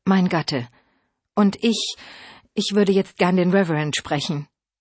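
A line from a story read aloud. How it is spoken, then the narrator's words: Calm. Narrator (German): sagte ruhig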